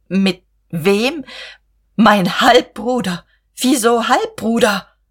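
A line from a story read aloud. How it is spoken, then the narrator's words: Soft gasping. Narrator (German): In einer tiefen Stille keuchte Guste leise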